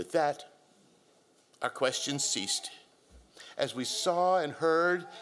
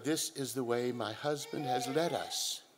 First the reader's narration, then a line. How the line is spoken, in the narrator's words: she quietly said